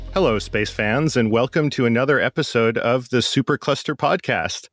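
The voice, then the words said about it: Smooth announcer-style voice. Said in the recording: “you got that sweet, sweet announcer voice.”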